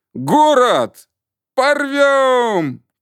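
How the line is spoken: Group shouting. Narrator (Russian): опять кричали мы

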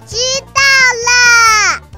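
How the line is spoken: Said loudly. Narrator (Chinese): 小猪宝宝很大声地跟猪妈妈说了一句

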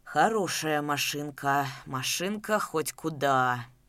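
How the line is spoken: Angry booming bass. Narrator (Russian): гневно забасил Шалый

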